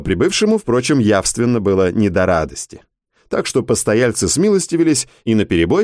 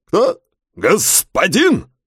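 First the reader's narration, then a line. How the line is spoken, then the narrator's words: Barked. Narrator (Russian): Рявкнул на низший чин его высокопревосходительство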